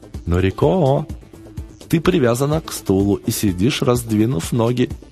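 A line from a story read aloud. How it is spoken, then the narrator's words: Cheerful remark. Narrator (Russian): весело заметил он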